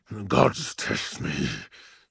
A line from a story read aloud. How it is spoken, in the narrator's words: he rumbled